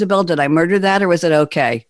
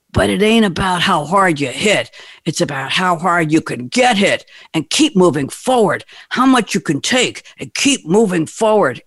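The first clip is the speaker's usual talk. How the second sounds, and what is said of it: Sylvester Stallone impression as Rocky. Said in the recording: “I'm going to try and do a Sylvester Stallone impersonation, but it's not going to really work”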